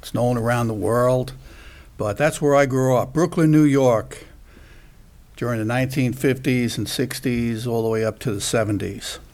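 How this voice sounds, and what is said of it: Brooklyn New York accent. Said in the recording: “I grew up in Brooklyn, New York. Some of you may detect that by my eloquence and my dialect and my nice little accent.”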